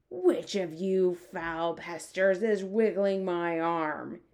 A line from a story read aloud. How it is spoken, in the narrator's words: He bellowed